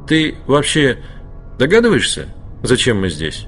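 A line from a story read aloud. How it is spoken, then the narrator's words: Plain. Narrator (Russian): спросил он Скотча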